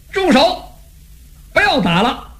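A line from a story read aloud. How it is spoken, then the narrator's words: Shout. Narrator (Chinese): 他这一喊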